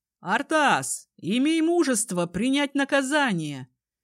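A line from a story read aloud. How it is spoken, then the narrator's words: Shout. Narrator (Russian): крикнул кто-то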